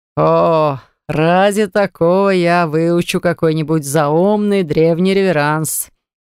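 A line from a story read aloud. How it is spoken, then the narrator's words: Chuckling. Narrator (Russian): хохотнул Джар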